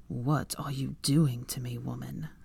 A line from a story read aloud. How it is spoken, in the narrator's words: Draco growled